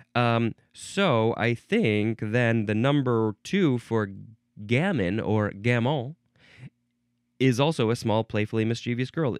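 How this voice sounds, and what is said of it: American English accent. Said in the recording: “I'm just saying it with my American English accent”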